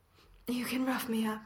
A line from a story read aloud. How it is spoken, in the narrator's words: Steve gasps after a second